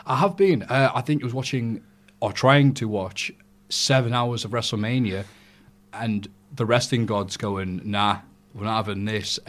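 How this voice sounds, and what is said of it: Sick-sounding voice. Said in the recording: “I'm very sorry for my voice this week ... you've been a bit ill”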